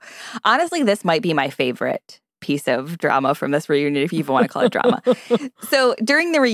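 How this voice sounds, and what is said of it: Usual voice. Nothing is said of it.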